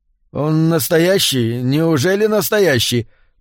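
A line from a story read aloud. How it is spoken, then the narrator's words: Mumbled. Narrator (Russian): промямлил Тиггертон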